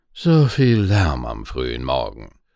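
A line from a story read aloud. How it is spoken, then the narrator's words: Sighing nobleman. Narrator (German): seufzte der Fürst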